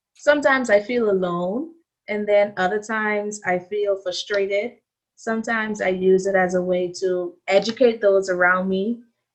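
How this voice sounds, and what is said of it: Bahamian accent. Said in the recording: “when they hear my accent ... you have an accent ... I know I have an accent, but it's not an African accent ... I'm from the Bahamas”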